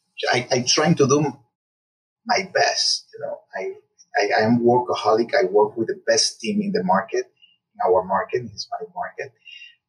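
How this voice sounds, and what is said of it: Hispanic accent. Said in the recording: “the first one who has an accent ... because you are Hispanic”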